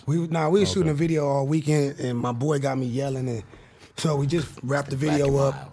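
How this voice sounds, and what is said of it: Messed-up voice from yelling. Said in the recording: “That's why my voice is messed up because we were shooting a video.”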